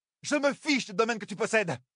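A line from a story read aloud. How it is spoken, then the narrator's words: Sudden shout. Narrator (French): cria soudain Nineveh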